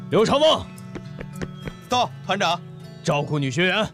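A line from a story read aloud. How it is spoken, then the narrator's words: Loud shout. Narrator (Chinese): 朱德高喊道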